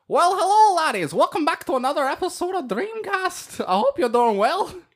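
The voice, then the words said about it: Put-on Irish accent. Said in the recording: “I thought you were Jacksepticeye. ... I was doing an Irish accent.”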